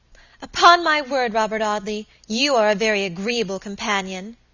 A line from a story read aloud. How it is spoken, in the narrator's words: exclaimed Alicia at length, her rather limited stock of patience quite exhausted